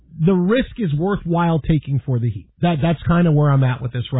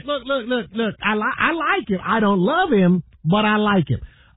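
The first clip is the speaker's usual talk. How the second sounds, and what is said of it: Imitates another person's voice. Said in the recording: “my Chris Broussard impression”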